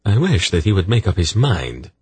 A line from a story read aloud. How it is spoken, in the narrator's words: he said irritably